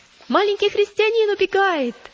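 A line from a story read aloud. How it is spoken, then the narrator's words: Shouting. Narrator (Russian): закричал один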